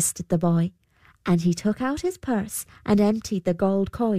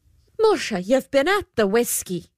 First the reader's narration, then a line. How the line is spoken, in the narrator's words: exclaimed the good lady